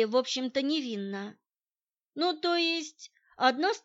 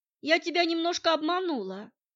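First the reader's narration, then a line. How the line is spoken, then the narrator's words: Sighing. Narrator (Russian): вздохнула учительница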